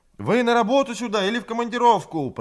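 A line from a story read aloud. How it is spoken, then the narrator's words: Shout carried off by wind. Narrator (Russian): прокричала Людмила, но ветер отбросил голос ее в сторону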